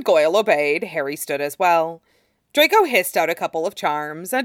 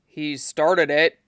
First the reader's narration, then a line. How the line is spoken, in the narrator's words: muttered Goyle